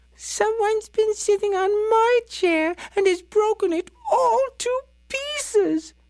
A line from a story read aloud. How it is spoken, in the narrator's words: wailed little Baby Bear